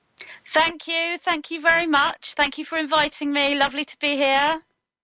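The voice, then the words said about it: British accent. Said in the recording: “I love your British accent. ... you're from Britain”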